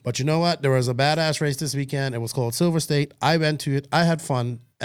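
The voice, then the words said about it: Tired, hoarse, worn-out voice. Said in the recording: “I'm a little tired. My voice is gone.”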